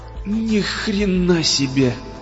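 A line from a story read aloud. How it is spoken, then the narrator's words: Strained. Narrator (Russian): выдавил он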